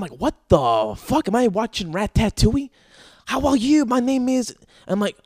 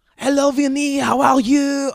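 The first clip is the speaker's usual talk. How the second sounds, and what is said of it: Thick French accent. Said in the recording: “customer service thick accent... that's how thick it is... it's so French”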